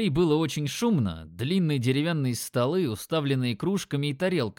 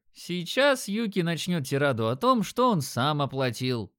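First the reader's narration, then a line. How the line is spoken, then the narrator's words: Chuckling. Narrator (Russian): хохотнул Димон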